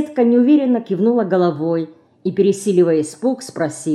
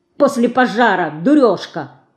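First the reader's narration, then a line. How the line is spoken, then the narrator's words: Angry scolding. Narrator (Russian): сердито обругала ее Динка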